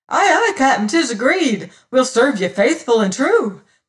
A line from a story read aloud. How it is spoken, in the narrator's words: cried